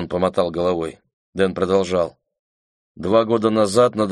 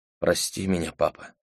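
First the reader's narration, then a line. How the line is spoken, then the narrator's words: Barely audible whisper. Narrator (Russian): едва слышно прошептала она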